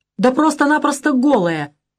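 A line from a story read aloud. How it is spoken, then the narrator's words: Loud laughing. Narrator (Russian): расхохотался Лизагуб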